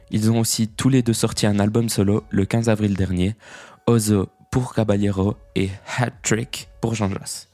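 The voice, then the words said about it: Poor, French-accented English pronunciation. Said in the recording (French): “toujours pas terrible mon accent anglais.”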